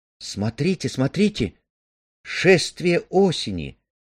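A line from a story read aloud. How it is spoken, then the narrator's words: Exclaimed. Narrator (Russian): воскликнула Амели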